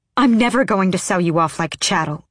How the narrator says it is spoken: she snapped

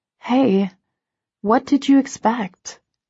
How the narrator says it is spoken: ask softly

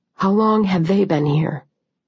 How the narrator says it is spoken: I asked in a low voice

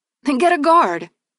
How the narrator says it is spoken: snapped back

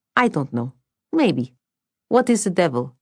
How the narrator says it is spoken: The little creature had a voice like the wicker of a kindly horse

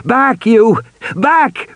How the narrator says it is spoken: Regis shouted

